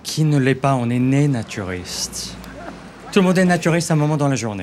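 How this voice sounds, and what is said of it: Slight Canadian accent. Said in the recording (French): “J'entends un petit accent ... Canada.”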